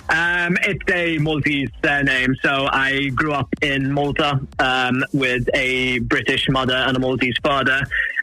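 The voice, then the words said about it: Slight Welsh-sounding British accent. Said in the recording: “for some reason gives me a slightly Welsh accent, which everybody always tries terribly hard to figure out ... when I'm in Malta, everybody thinks I'm English. But then when I'm in England, everyone thinks I'm Welsh”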